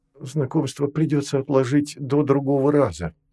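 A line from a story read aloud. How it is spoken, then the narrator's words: Soft. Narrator (Russian): сказал он мягко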